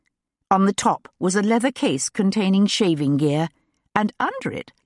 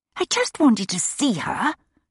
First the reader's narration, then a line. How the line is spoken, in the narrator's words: she said in a loud whisper